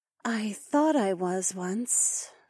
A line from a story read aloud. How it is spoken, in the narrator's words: she sighed